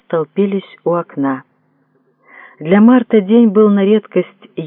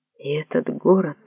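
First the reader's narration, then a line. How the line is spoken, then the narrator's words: Whispered. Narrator (Russian): прошептал кто-то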